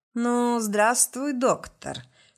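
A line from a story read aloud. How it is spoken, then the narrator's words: Lazy, faintly mocking. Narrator (Russian): сказал лениво с едва заметной усмешкой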